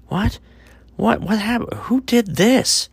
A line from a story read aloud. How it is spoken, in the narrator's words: Thomas cried out